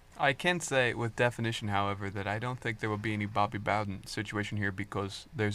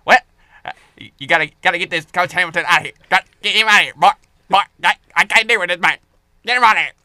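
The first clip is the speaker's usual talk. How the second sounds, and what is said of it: Good Jimbo Fisher impression. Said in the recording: “It's a good Jimbo. It's a good Jimbo impression.”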